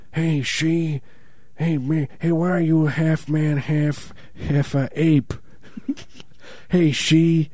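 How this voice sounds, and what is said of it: Imitates another person's voice. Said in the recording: “impersonation of Marlon Brando”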